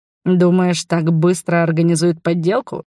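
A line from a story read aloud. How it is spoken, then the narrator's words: Snort. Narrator (Russian): хмыкнул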